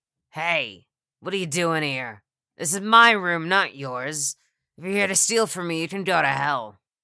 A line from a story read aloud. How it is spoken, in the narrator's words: an old woman said loudly